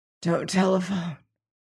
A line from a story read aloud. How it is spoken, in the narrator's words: said Hammond huskily